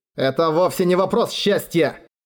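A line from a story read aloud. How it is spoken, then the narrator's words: Growl. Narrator (Russian): прорычал он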